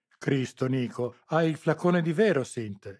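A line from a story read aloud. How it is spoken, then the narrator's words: Disgusted exclamation. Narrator (Italian): esclamò Moretti, disgustato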